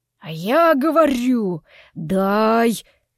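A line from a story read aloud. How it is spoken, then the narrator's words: Low hoarse male demand. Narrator (Russian): низким хриплым голосом требовал мужчина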